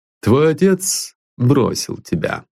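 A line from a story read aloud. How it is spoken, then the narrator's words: Calm. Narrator (Russian): спокойно сказал он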